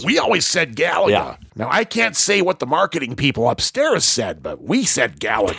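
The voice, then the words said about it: Imitates another person's voice. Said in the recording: “That's such a great impersonation.”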